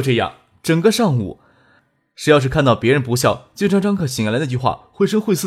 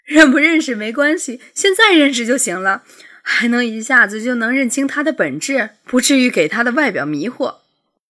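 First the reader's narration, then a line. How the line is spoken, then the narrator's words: Continuous laughter. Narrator (Chinese): 苏玉婷笑着就没停，说道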